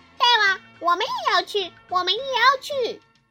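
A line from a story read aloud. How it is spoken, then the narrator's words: Little monkeys clamoring together. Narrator (Chinese): 小猴子们都叫喊起来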